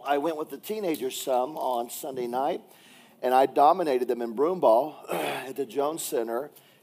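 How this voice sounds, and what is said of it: Hoarse, raw voice. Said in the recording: “my voice is a little raw ... I did holler just a little bit, and so my voice is about shot”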